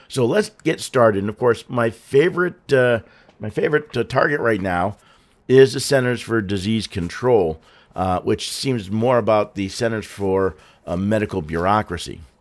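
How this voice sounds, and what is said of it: Hoarse, slightly off voice. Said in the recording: “my voice is a little off. I'm getting over something ... a hoarse voice”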